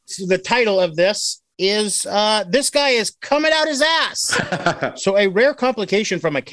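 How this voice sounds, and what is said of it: Usual voice. Nothing is said of it.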